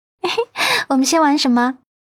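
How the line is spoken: Giggling. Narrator (Chinese): 阮南希嬉笑着

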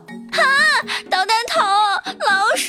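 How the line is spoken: Frightened scream. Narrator (Chinese): 金豆子吓得大叫

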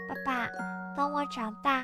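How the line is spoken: Half-asleep murmur. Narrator (Chinese): 在半睡半醒中，小贝蒂喃喃低语

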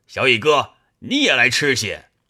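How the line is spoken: Calling out. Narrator (Chinese): 又叫燕青道

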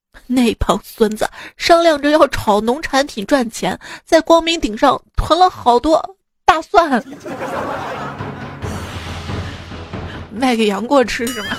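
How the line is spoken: Grief-stricken, indignant. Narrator (Chinese): 韦一笑悲愤地说

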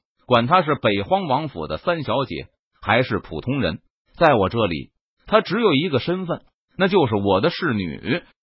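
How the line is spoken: Cold harsh rebuke. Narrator (Chinese): 北荒王府的护卫统领冷声呵斥道

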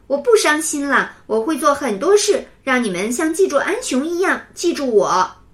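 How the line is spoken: Loud child. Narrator (Chinese): 牛牛大声说

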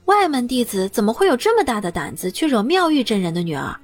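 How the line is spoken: Plain. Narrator (Chinese): 他故意如此说

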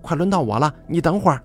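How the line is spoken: Loud. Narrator (Chinese): 我就大声地说

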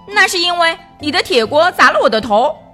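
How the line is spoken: Roaring. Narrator (Chinese): 笨笨吼道

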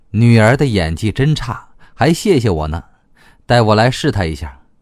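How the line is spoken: Inner thought, secretly amused. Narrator (Chinese): 莫中医在心里偷笑

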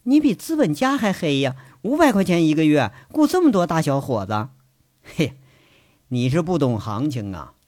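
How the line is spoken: Teasing. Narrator (Chinese): 嘴里还是取笑

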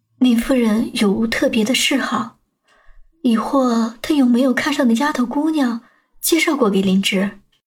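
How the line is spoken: Soft laugh, quiet question. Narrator (Chinese): 清水 便轻轻笑了起来，小声问杨焕

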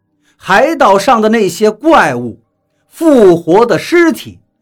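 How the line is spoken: Shocked outcry. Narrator (Chinese): 我失声叫道

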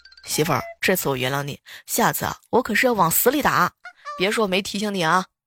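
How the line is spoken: Cold laugh. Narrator (Chinese): 当时我哥冷冷一笑

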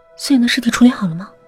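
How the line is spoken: Hurried question. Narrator (Chinese): 姚小诗急忙问

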